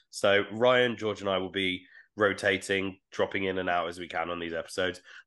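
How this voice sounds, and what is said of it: Sick-sounding voice. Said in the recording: “I apologize for my voice ... I'm so ill.”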